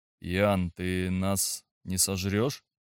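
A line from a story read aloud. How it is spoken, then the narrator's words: Unsure question. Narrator (Russian): неуверенно спросил Игорь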